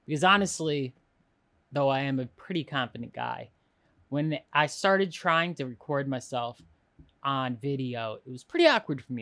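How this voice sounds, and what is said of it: Slightly nasal voice. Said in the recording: “my voice is a little nasally”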